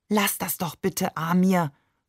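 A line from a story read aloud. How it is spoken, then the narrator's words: Whisper across corridor. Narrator (German): flüsterte sie über den Korridor hinweg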